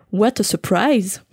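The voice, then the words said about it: Put-on foreign accent. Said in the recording (French): “j'ai fait un bon accent”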